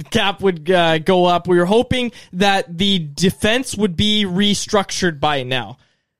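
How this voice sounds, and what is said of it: Impression of Jim Rutherford. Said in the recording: “I'm not going to do a Jim Rutherford impression, but he always says ... I did a little impression”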